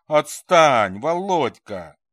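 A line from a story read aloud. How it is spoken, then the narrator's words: Embarrassed, angry cry. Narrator (Russian): вскрикнула смущенно сердито Светка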